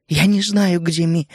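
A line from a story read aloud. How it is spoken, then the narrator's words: Trembling voice. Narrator (Russian): дрожащим голосом ответила она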